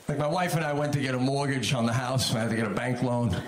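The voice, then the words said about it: New York Long Island accent. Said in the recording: “I don't mind having my New York Long Island accent ... the minute you start talking with this accent, nobody ever thinks, oh, there's a genius ... try not to sound all Goomba”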